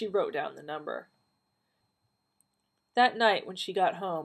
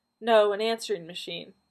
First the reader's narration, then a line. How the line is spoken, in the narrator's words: Donna said, forcing her voice to calmness